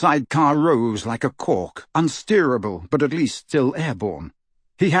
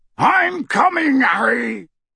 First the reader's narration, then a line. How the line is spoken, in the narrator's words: Hagrid yelled out of the darkness